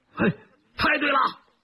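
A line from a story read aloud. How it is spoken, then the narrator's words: Several men shouting together. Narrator (Chinese): 两位射手和两位司机几乎同时高叫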